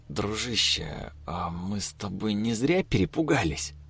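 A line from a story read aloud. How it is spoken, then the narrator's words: Whispered. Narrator (Russian): сказал он шепотом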